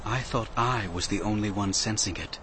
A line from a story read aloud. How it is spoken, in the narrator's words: Shatak said quietly